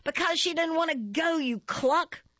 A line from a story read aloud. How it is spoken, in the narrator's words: one of the older ones will shout